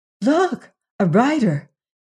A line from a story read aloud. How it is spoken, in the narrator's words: exclaimed Jane, breaking the silence